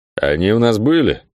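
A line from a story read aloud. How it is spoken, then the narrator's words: Muffled, older man. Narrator (Russian): Глухо поинтересовался тот, уже не молодой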